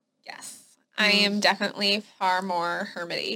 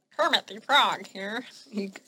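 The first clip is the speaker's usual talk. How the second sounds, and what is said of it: Poor Kermit the Frog voice. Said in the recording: “That was not a good impersonation.”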